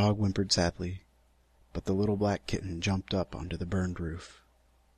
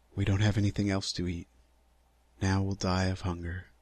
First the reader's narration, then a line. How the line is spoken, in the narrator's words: the old fisherman again sadly said